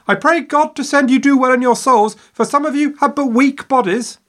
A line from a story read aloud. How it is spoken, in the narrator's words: hanging out of her window, yelling at their backs